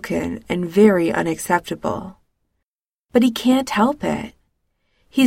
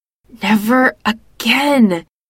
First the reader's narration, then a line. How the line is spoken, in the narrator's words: she hisses